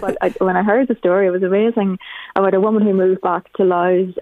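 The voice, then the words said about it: Non-local accent. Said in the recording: “I'm a blowin', as you can probably tell from my accent”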